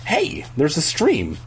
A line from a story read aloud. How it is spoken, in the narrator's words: I cried happily